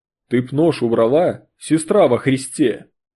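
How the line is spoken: Deep bass. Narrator (Russian): Пробасил Растрига

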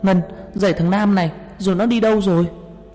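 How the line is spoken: Shouting while running. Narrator (Vietnamese): Tôi chạy đến la lên

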